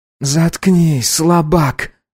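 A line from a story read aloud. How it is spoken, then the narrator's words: Harsh, hoarse snap. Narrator (Russian): грубо резанула хриплая Диккенс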